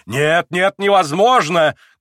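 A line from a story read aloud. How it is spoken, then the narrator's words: Frantic shout. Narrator (Russian): крикнул как бы не в себе Петр Александрович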